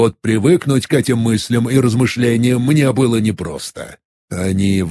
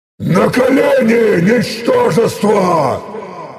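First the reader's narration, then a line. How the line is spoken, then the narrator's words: Thunderous roar. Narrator (Russian): Громоподобно взревел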